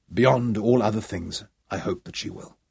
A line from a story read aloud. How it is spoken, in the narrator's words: Sean answered, and then softly